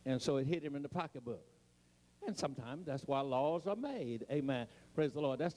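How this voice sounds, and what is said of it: Eastern US, Maryland-sounding accent. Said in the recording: “a Eastern accent. I sound like I'm from Maryland.”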